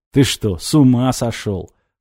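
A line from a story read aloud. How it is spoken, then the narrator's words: Snorting. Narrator (Russian): хмыкнул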